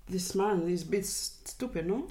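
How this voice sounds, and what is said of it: Put-on Spanish accent. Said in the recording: “Can you try and be a bit more Spanish? ... You've heard Spanish people talk, right?”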